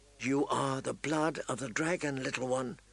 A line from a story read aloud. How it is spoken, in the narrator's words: she whispered